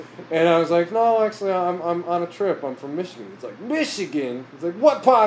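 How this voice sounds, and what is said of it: Usual voice. Nothing is said of it.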